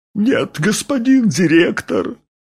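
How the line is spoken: Sobbing. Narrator (Russian): всхлипнул сторож

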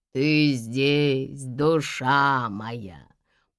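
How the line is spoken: Drawling. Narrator (Russian): протянул он

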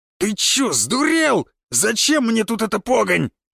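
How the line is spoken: Village elder yelling. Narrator (Russian): завопил староста

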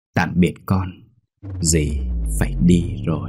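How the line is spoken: Soft, gentle. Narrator (Vietnamese): Dì ... nói nhỏ nhẹ

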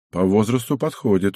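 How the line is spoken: Calm reply. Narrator (Russian): уже спокойно ответил глава

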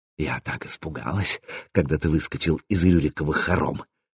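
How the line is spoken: Intimate whisper in ear. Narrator (Russian): шептала Заря, щекоча губами мое ухо

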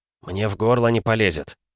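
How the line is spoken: Grumbling. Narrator (Russian): проворчал микроб

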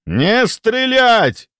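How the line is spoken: Thunderous roaring shout. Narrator (Russian): заорал Ярк с такой силой, что его голос перекрыл даже рычание метаморфа

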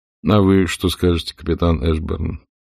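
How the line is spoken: Ingratiating, falsely humble. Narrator (Russian): Он говорил вкрадчиво и все с тем же показным смирением

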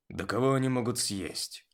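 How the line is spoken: Grumbling. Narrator (Russian): проворчал Бронт

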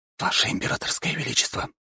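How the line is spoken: Whispered address. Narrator (Russian): шепотом обратился он к ней

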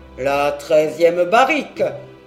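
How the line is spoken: Exclaimed. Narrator (French): s'écria-t-il

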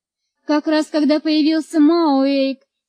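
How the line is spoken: Moaning. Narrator (Russian): стонала Марго

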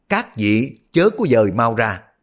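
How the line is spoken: Loud. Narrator (Vietnamese): Ông lớn tiếng nói

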